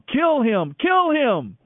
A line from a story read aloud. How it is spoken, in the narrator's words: the crowd shouting